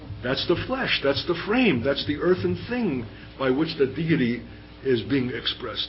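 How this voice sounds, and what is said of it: Brooklyn accent. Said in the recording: “with a Brooklyn accent.”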